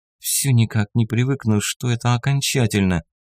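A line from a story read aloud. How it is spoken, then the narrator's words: Quiet, tearful. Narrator (Russian): вытирая слезы, проговорила Рита тихо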